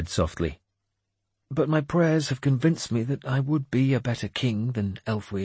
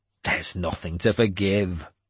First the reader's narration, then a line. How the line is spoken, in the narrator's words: I said harshly